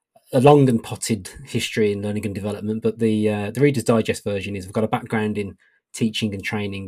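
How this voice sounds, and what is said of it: British accent. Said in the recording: “As you can probably tell from the accent, I'm a learning technologist based in the UK.”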